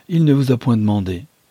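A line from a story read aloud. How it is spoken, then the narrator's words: Curt retort. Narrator (French): répliqua sèchement Madame d'Alifard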